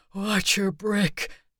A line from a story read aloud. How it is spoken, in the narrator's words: the man wheezed